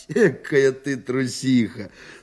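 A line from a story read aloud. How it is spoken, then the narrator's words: Laughing. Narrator (Russian): смеялся он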